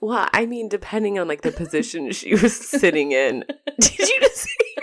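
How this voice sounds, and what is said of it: Usual voice. Nothing is said of it.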